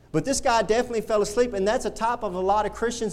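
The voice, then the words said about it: High-pitched whiny Southern Texas accent. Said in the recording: “my high-pitched, whiny, southern accent, Texas swangy, a voice and how I get loud”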